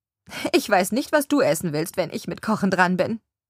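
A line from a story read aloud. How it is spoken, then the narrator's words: Laughing remark. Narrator (German): bemerkt Helen lachend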